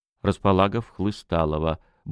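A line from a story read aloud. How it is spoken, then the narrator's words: Sorrowful grumble with sigh. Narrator (Russian): буркнул Волынский с горестным вздохом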